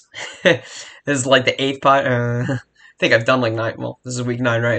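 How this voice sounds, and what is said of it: Raspy, sore-throated voice. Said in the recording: “I'm also back with a sore throat... my voice is killing me... My voice does sound a little raspy, I can tell already”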